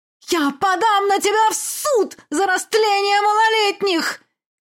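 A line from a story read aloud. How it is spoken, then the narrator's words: Shrieking mother. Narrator (Russian): визжала мать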